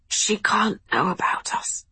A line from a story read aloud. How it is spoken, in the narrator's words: risked a whisper